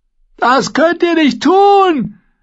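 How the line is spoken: Prisoner shouting after someone. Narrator (German): schrie der Gefangene ihn hinterher

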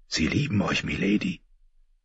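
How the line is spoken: Whispered in ear. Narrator (German): hatte ihr ins Ohr geflüstert

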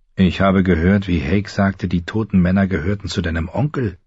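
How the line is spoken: Plain. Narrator (German): sagte Pip

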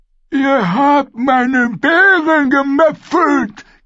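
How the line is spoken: Shrieking. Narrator (German): kreischte Wagohot

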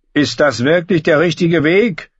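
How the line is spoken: Calling from behind. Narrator (German): rief Sir Heil von hinten

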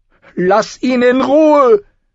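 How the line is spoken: Shouting at sister. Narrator (German): schrie Sansa ihre Schwester an

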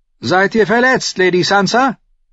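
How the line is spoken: Calling out. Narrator (German): Tyrion rief ihr zu

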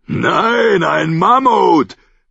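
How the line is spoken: Roaring. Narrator (German): brüllte Tormund

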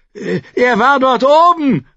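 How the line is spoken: Shout from a crowd. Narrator (German): rief jemand aus der Menge

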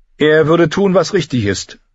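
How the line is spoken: Loud, covering hesitation. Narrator (German): sagte, laut heraus, um sein Zögern wettzumachen

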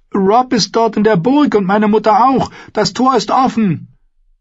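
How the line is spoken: Called out. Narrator (German): rief sie

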